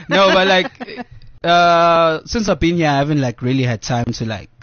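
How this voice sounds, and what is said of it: Zulu-accented English. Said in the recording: “your Zulu accent”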